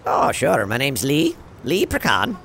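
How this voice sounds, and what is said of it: Slight accent. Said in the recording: “You have a little bit of an accent there.”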